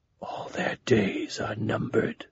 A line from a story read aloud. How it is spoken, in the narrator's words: Goblin said in a whisper